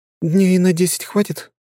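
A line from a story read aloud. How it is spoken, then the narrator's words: Uncertain question. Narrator (Russian): неуверенно спросила Ангелина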